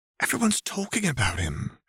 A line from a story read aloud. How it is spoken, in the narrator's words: she whispered